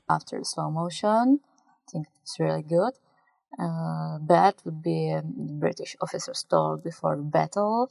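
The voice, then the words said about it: Speaks with a noticeable accent. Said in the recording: “with the accent and everything”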